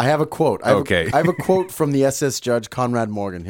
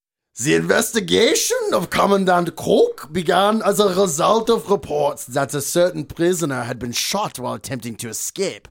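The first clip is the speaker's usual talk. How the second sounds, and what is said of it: Put-on German accent. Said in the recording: “I'm going to try my German accent again.”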